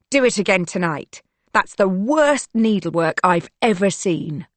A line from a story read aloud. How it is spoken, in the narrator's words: she barks